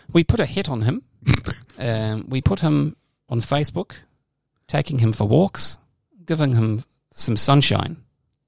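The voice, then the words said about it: Put-on New Zealand accent. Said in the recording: “I was doing New Zealand accent.”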